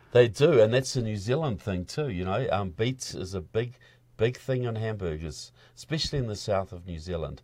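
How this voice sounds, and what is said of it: New Zealand accent. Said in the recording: “your accent. You're from New Zealand.”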